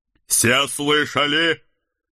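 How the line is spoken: Loud announcement. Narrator (Russian): громко оповестил Седрик

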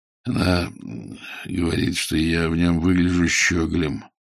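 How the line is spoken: Sullen mutter. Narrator (Russian): угрюмо буркнул Ваймс

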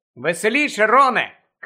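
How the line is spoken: Shout. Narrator (Ukrainian): крикнула Лаванда

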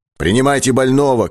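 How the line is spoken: Shout. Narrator (Russian): крикнул ляхов

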